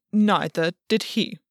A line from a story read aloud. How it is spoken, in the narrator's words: Albion said stiffly